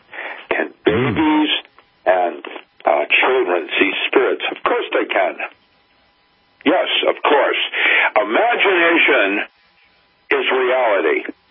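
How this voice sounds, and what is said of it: Speaks with a noticeable accent. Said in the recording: “I love your accent.”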